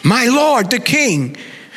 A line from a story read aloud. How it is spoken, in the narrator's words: David shouted after him